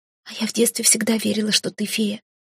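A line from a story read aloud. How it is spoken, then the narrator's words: Whisper. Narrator (Russian): шепнула она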